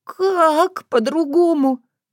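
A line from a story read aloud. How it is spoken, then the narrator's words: Sob. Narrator (Russian): всхлипнула Таня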